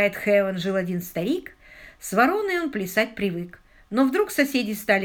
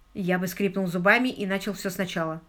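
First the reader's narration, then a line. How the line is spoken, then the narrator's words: Plain. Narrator (Russian): ответил Паркер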